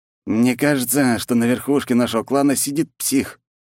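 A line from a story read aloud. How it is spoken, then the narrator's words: Exhaled. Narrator (Russian): выдохнул Федя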